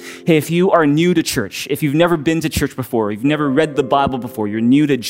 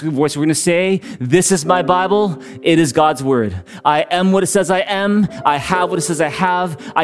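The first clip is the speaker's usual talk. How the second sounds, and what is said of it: Loud, emphatic voice. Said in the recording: “in a big loud voice.”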